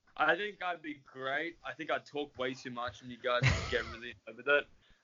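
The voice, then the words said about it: Australian accent. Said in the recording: “having an Australian accent there”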